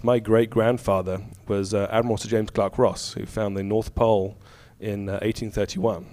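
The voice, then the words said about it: Slight English-sounding accent. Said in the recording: “despite the accent, ... I just spent a few years in England as a kid.”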